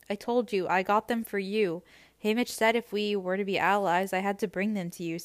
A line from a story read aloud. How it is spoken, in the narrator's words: says Joanna